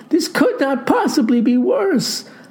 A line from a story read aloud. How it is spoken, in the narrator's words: cries